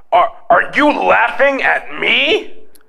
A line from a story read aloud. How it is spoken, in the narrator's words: Between gasps of air, I barely choked out